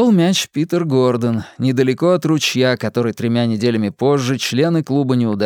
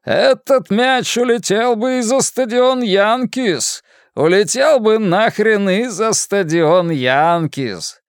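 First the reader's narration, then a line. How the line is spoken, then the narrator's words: Amazed laughing shout. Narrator (Russian): Тони Трекер изумленно хохотал и кричал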